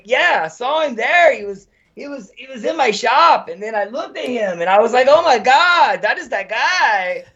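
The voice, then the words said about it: Exaggerated put-on Hispanic accent. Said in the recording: “don't want to do a stereotypical Spanish accent ... But way gayer ... I found my gay Hispanic accent”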